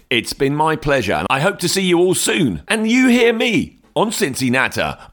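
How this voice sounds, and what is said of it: Radio voiceover announcer voice. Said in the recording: “the radio voiceover man ... I'm ... the radio voice man.”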